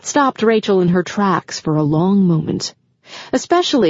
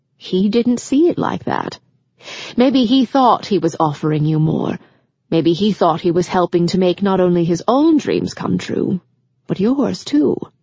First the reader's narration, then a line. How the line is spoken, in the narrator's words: Grams gently suggested